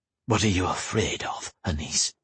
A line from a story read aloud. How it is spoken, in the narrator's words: he said, his voice husky